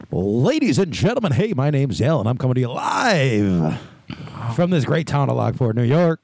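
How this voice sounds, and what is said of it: Announcer-style radio voice. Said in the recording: “It was a good radio voice, too.”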